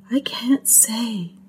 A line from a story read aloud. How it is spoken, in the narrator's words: she whispered